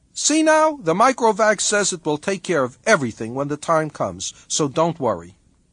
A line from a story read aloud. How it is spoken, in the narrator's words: Gerard said cheerfully